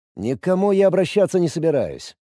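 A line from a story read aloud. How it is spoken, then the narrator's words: Calm. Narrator (Russian): сказал спокойно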